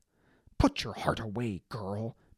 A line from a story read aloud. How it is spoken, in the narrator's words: Maeve snapped